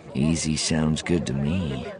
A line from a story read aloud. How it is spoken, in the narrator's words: the man murmured, the slurring abruptly gone